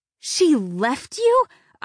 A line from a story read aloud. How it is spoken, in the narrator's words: I gasp